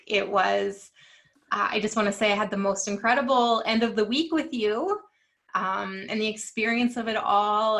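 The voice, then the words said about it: Slightly cracking, strained voice. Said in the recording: “My voice is a little cracky. I hope it's not cracky from us filming”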